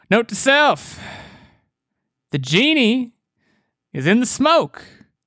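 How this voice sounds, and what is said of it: Matthew McConaughey impression, yelling. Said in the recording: “do a Matthew McConaughey impression ... It was way more, like, yelling.”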